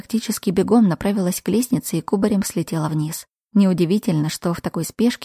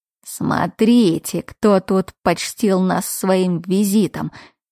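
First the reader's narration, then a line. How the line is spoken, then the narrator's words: Caustic wheeze. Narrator (Russian): едко просипел мой отец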